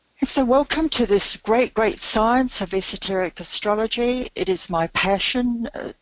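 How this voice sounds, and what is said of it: Hoarse, strained voice. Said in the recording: “my voice has been lost”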